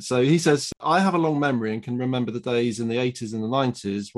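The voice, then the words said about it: Smooth British accent. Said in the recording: “smooth British accent”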